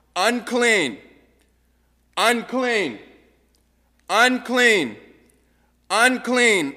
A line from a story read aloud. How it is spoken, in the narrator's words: screaming out